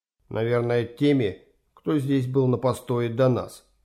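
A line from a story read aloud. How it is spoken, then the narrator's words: Quiet. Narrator (Russian): так же тихо ответил Юрген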